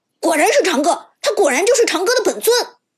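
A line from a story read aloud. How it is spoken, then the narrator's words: Exaggerated shout. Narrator (Chinese): 有人很夸张的喊道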